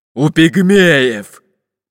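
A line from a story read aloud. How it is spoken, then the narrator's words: Fat man grumbling. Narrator (Russian): проворчал толстый пират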